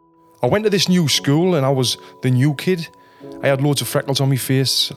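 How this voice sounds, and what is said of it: Northeast English accent. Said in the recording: “As you can tell from my accent, I'm not from around here. I'm from Sunderland, which is in the northeast of England.”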